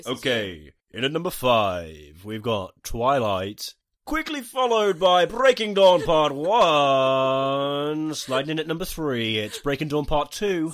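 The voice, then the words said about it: Crisp announcer presenter voice. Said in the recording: “my announcer voice ... crisp a presenter voice”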